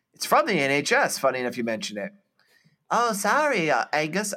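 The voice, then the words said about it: Put-on character voice. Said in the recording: “I don't know why I'm doing a voice.”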